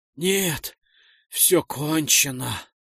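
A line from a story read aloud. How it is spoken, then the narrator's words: Rasping again. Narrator (Russian): прохрипел вновь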